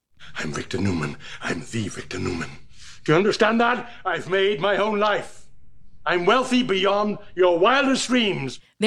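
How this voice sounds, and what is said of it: Distinctive accent, debonair swagger. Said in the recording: “Victor Newman, debonair, swagger, the distinctive accent.”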